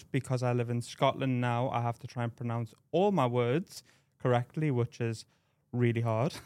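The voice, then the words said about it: Geordie accent from northeast England. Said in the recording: “originally my accent is from the northeast of England ... a Geordie accent ... from Newcastle”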